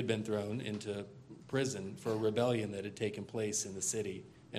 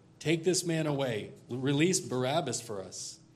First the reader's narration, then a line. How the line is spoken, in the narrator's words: they all cried out together